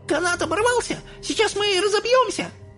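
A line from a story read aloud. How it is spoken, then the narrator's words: Panicked shriek. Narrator (Russian): взвизгнула миссис Телик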